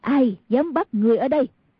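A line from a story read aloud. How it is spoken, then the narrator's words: Angry woman. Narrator (Vietnamese): Người đàn bà kia tức giận nói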